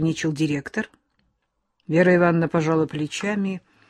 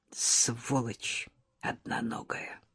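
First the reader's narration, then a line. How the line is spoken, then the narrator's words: Quiet. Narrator (Russian): тихо сказала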